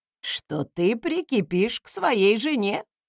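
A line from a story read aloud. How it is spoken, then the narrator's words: Wry snort. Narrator (Russian): хмыкнул советник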